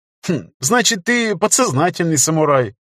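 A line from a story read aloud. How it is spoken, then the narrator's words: Joyless giggle. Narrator (Russian): невесело хихикнул Федор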